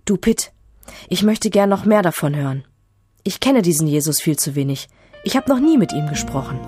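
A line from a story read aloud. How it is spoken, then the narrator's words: Said quietly. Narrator (German): Leise sagt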